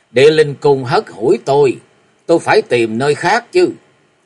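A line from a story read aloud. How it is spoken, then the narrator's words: Middle-aged man laughing loudly. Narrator (Vietnamese): Bạch y trung niên cười lớn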